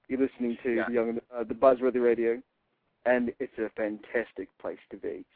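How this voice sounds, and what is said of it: Smooth Australian-accented voice impression. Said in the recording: “I can sort of impersonate the way he does ... my Australian accent ... He's all smooth about it”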